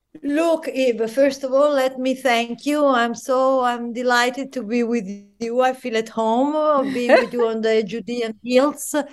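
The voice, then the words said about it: Italian accent. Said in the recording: “I just love your accent, I have to say. I love the Italian accent.”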